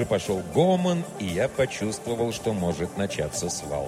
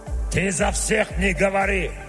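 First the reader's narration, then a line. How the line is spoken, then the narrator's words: Dwarf barking. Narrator (Russian): рявкнул дварф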